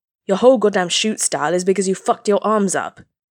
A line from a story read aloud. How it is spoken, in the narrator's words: Katsuki snapped